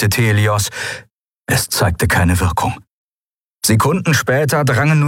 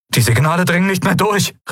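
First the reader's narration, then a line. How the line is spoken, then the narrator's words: Calling out. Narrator (German): rief er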